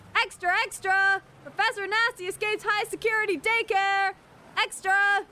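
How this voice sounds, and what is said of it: Shouting loudly. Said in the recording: “Why are you shouting?”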